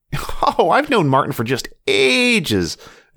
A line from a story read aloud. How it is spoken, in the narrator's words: Emily laughed